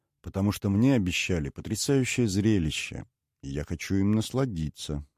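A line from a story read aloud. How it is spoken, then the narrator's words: Calm. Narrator (Russian): спокойно ответил Лаирак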